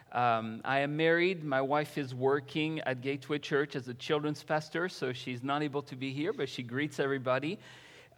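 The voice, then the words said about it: French accent. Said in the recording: “I'm French, as you can tell. Maybe the accent is going to give it out a little bit.”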